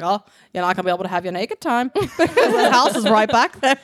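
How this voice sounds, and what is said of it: Imitated Rhode Island accent. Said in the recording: “interpretation of the Rhode Island accent”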